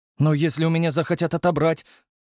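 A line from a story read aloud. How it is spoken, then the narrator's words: Anxious young voice. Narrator (Russian): взволнованно спросил паренек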